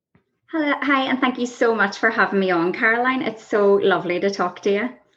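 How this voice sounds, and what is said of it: Irish accent. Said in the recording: “You started off in Ireland. We can tell from your accent.”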